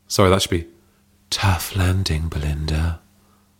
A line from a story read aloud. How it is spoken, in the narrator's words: purred Hazel